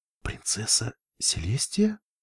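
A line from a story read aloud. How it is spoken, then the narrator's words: Whisper. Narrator (Russian): прошептала зебра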